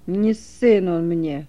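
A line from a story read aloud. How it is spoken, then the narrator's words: Grumbled through gritted teeth. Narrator (Russian): скрежеща зубами, пробурчал Думах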